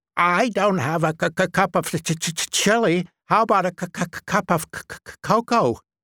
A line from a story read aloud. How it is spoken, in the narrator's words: A boy next door named Hutter Cutter, who stuttered, shouted